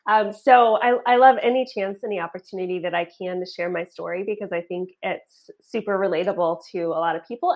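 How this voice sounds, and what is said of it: Slightly shaky voice after illness. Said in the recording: “I am recovering from being sick. So my voice might be a little shaky”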